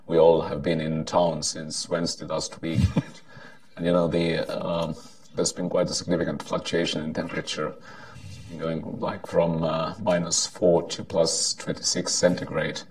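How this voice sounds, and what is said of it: Hoarse, partly lost voice. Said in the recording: “I've lost my voice a bit.”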